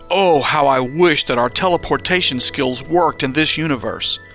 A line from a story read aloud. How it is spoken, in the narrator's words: Daniel sharply lamented